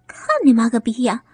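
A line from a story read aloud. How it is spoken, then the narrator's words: Laughing scolding. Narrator (Chinese): 孙秀琴笑着骂道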